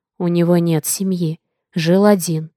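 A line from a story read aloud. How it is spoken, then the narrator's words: Whispering. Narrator (Russian): шептал Олли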